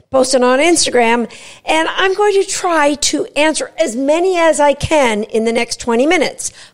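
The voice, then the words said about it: Slightly raspy voice. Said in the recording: “my voice seems a little bit raspy”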